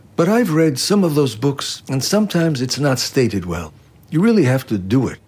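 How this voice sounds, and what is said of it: Mexican Spanish-accented English. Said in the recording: “His Spanglish accent contains hints of the Purépecha Indian heritage that he brought with him from Michoacán, Mexico.”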